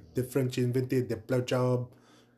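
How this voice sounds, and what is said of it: Bad French accent. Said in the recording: “a bad French accent.”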